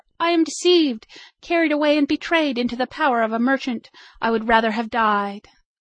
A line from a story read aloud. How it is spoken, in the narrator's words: she cried in terror